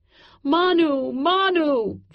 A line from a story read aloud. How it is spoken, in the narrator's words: cried over and over